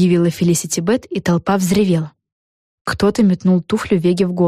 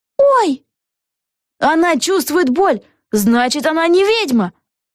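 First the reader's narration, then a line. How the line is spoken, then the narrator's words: Someone shouting. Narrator (Russian): закричал кто-то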